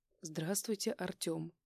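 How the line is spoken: Calm, suppressing a smile. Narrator (Russian): Спокойно кивнула она мне, явно сдерживая улыбку

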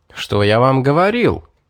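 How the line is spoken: Joyful exclamation. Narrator (Russian): обрадованно воскликнул Лерой

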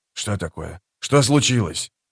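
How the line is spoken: Hollow whisper. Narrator (Russian): Ответил Нехил глухим шепотом

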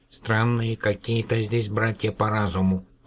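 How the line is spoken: Muttering. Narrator (Russian): пробормотал

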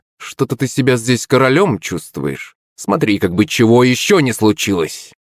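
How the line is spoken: Malicious laughter. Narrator (Russian): Шепелев злобно захохотал

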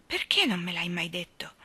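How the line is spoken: Choked voice. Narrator (Italian): disse Janet con voce strozzata

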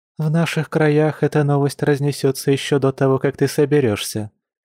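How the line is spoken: Soft chuckle. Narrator (Russian): мягко хмыкнула Маша

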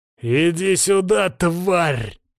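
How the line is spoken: Growl. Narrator (Russian): прорычал я

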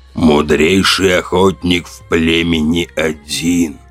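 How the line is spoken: Creaky voice. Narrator (Russian): проскрипел он

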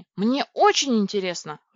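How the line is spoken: Exclamation. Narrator (Russian): воскликнула я

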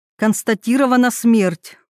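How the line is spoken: Loud. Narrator (Russian): громко сказала

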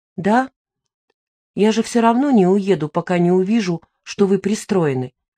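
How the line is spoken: Calm. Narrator (Russian): сказал он спокойно

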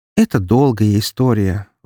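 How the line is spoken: Sighing woman. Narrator (Russian): вздохнула она

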